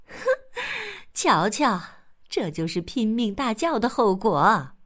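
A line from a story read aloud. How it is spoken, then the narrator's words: Laughing mother. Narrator (Chinese): 兔妈妈笑着回答说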